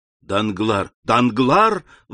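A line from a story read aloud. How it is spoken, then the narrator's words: Exclamation. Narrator (Russian): воскликнул Альбер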